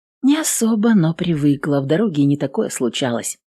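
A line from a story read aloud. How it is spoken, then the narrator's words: Calm. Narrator (Russian): спокойно ответила Эвелин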